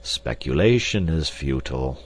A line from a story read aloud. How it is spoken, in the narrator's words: said Professor Porter sadly